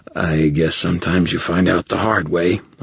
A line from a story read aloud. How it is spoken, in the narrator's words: I slurred